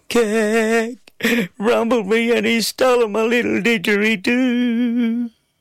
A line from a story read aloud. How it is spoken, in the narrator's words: Between my sobs, I managed to weep